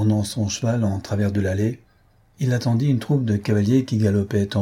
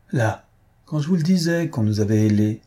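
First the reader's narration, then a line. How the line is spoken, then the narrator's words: Exclaiming. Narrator (French): s'écria le comte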